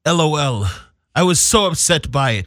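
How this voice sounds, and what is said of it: Dramatic reading in British-sounding accent. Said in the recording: “Why does she have an accent? ... It's a dramatic reading. ... It sounds like ... Battlefield Britain in the building.”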